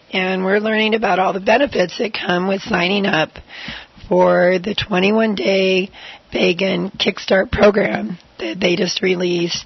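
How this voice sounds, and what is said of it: Hoarse voice. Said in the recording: “I'm here with laryngitis”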